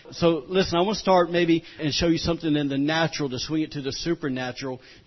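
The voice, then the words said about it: Southern rural American accent, fast speech. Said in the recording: “I know I'm talking fast ... this country boy redneck accent”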